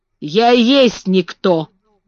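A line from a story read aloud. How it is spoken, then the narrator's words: Rough, old man. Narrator (Russian): грубо сказал старый Бен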